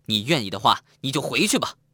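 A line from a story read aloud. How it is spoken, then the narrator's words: Loud, almost shouting. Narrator (Chinese): 他又大声的，几乎是喊出来的，说道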